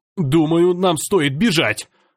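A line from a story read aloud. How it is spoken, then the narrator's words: Shouting. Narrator (Russian): закричал я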